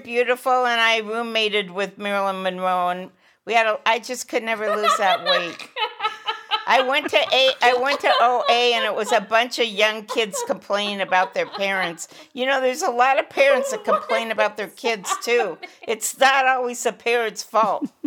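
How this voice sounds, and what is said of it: Weird Shelley Winters impression. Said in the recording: “That was a weird impression of Shelley Winters.”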